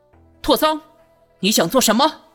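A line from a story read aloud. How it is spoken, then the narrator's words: Angry. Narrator (Chinese): 他怒道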